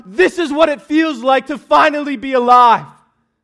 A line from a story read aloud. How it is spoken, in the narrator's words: we will shout